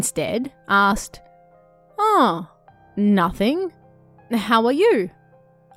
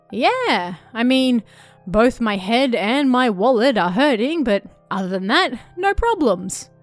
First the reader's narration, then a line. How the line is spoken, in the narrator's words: he said with a pleasant laugh